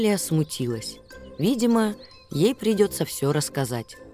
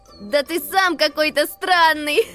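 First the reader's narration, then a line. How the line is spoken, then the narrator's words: Laughing reply. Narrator (Russian): Рассмеялся Макси в ответ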